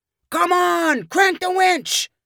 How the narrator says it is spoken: Quentin yelled

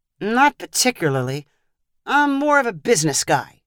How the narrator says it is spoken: sighed

